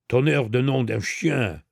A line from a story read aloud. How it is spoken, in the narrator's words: exclaimed Ganimard